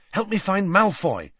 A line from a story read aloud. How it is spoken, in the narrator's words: said Harry urgently